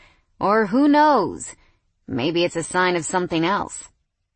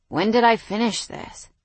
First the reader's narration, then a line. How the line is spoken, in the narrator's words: He slurred